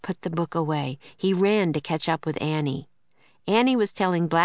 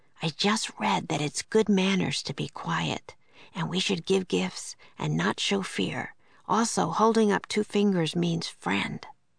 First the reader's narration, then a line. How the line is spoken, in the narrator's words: Jack whispered